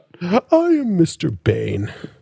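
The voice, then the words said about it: Bane villain character voice. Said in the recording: “That's my best Bane impression. I can't do a good Bane impression.”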